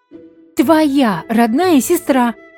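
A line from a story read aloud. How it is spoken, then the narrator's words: Fierce bitter shout. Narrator (Russian): крикнула с ожесточением Луиза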